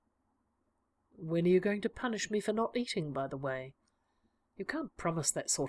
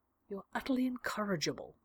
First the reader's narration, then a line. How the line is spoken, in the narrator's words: whispered